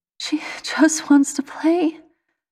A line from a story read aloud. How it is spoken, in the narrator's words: the mother sobs